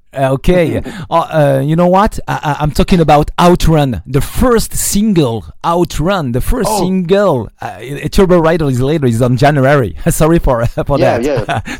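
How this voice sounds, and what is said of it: Speaks English with an accent. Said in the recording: “Sorry for my accent.”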